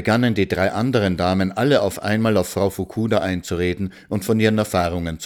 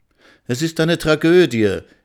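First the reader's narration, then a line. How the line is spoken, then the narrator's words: Exclaimed. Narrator (German): rief Frau Miller aus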